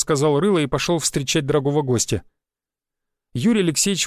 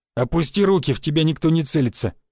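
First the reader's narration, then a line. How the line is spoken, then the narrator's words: Snorted. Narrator (Russian): хмыкнул Рыло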